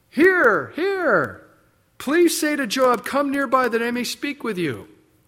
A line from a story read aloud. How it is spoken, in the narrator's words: A wise woman cried out